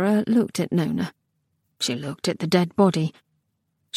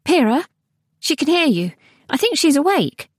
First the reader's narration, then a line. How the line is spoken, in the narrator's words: said hastily, before Pyrrha could say anything too personal